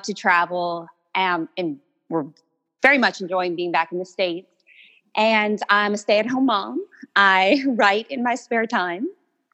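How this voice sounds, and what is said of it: Slight Cajun Louisiana accent. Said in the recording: “did I detect a little Cajun, a little Louisiana situation in your accent? ... You certainly did.”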